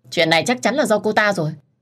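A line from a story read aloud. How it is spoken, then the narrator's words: Angry. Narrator (Vietnamese): Nhật tức giận lên tiếng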